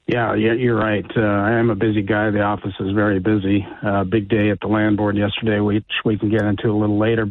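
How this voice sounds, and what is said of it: Raspy, unwell-sounding voice. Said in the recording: “I don't feel very good today. So to the listeners, I apologize for my raspy voice.”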